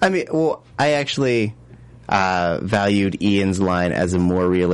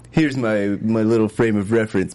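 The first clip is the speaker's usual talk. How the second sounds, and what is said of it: Imitates another person's voice. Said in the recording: “That was my impression... It was a terrible impression.”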